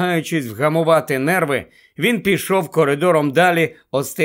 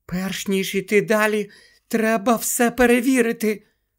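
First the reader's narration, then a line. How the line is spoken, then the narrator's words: Whispering. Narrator (Ukrainian): прошепотіла Герміона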